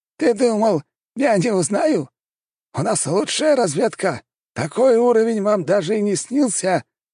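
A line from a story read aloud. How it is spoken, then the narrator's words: Roaring laughter. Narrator (Russian): расхохотался император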